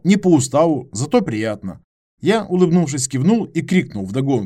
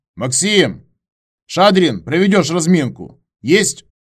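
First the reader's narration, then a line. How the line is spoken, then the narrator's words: Shout from the ranks. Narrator (Russian): Выкрикнул кто-то из строя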